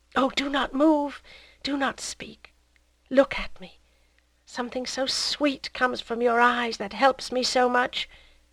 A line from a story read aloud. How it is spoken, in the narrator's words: murmured, as if choking with intoxication